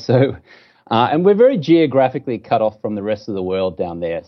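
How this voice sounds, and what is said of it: Australian accent. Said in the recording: “I grew up in Brisbane, Australia. You can tell I got a funny accent here.”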